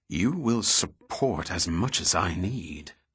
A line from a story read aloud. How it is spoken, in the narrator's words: Goyette hissed